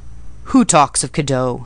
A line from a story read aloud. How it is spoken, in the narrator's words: he said gruffly